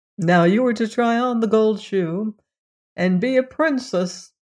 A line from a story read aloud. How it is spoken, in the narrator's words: said the other servants, and they laughed at her and mocked her